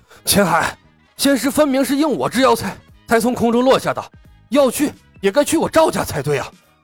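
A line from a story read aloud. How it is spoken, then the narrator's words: Panting, out of breath. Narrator (Chinese): 第二个人气喘吁吁地说道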